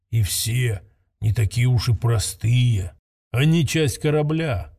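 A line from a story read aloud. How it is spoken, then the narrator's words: Quiet matching tone, old man. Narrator (Russian): в тон ему ответил старый вождь так же тихо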